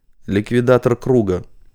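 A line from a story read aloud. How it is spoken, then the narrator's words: Low male voice. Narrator (Russian): проговорила Вероника низким мужским голосом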